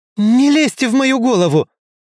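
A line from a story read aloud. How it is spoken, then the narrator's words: Yell. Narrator (Russian): заорала Джилл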